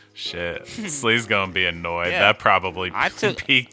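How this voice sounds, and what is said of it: Usual voice. Nothing is said of it.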